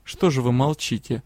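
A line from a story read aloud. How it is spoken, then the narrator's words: Mocking question. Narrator (Russian): насмешливо поинтересовался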